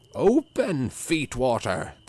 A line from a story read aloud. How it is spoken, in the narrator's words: cried